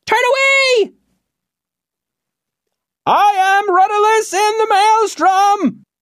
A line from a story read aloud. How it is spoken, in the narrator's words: yelled the man in the basket